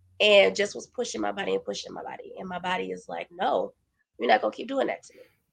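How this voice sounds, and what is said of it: Voice still sounds ill. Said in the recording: “as you probably can tell by my voice, I'm just now getting over being sick.”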